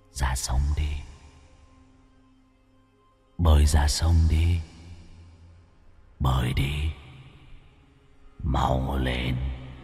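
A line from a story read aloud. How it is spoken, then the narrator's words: Persistent whisper. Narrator (Vietnamese): giọng nói thì thầm cứ vang lên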